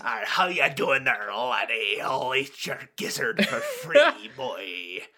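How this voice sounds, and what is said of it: Gritty put-on pirate Scottish accent. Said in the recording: “pirate accents ... Scottish mixed with Spanish with 100 times more grime”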